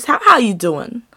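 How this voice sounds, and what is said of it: Imitates another person's voice. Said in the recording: “I'm only doing that voice because I'm about to talk about Wendy, Miss Wendy Williams herself.”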